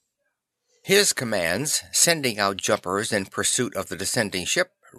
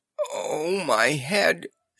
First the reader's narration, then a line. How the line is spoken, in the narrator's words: she groaned, coming to